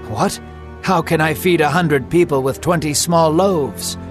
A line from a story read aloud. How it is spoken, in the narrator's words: The man gave a nervous laugh and said